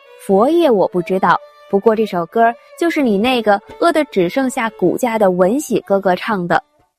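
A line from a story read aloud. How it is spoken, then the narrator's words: Hunter laughing loudly. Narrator (Chinese): 一个猎人大笑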